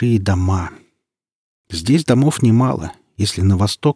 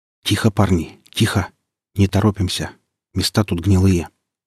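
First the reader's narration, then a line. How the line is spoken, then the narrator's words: Quiet warning. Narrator (Russian): сказал я негромко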